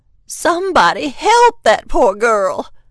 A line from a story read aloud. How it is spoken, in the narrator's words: the grandmother cried